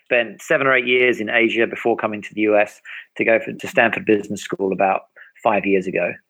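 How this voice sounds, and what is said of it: British accent. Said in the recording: “as you detected from the accent, not from here. I'm from the U.K.”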